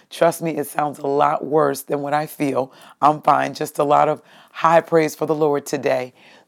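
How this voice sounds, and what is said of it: Hoarse voice. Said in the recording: “I don't sound as hoarse in the podcast on the go as I do right now”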